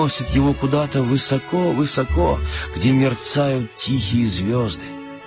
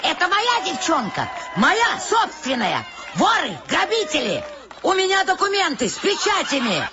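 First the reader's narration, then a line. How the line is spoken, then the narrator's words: Very loud shrieking. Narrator (Russian): Она завизжала так громко, что закачались трапеции, подвешенные под куполом цирка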